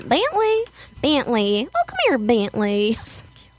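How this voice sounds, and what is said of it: Put-on Southern accent. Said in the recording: “She had a southern accent.”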